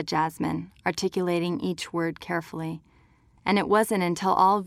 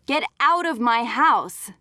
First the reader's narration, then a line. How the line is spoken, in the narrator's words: Jasmine yelled